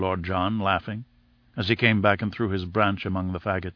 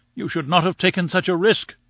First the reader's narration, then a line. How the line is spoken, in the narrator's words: we all cried